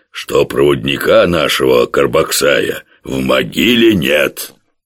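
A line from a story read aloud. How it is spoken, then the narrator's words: Strongman's unctuous voice. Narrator (Russian): масляным голосом сказал богатырь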